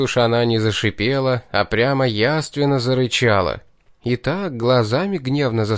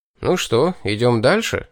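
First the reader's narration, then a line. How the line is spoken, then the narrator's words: Cheerful suggestion. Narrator (Russian): бодро предложил я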